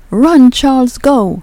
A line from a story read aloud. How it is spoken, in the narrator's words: a female voice was shouting